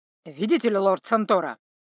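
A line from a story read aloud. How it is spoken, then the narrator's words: Somewhat irritated. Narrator (Russian): уже несколько раздраженно сказал Фоти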